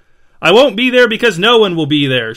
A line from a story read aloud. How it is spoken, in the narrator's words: shouted Liam